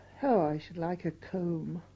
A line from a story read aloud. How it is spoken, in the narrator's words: one of them sighed